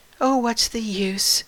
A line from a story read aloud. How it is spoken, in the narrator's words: said with a sigh